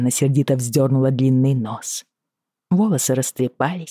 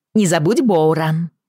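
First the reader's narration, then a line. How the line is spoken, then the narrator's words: Calling out after someone. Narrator (Russian): крикнула ему вслед Бриана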